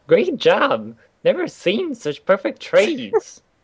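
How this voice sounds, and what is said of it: Imitates an animated film character's voice. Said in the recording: “What accent is that? ... I think it's the king from Candy, whatever it was ... Wreck-It Ralph”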